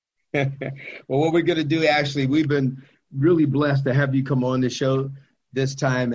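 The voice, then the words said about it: Smooth radio-style voice. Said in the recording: “you have an amazing radio voice.”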